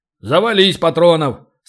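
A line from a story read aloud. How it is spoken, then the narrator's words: Deep solemn boom. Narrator (Russian): солидно прогудел Ори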